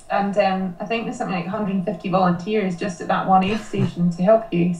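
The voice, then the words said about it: Scottish accent. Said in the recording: “you're from Scotland, and once they hear your accent”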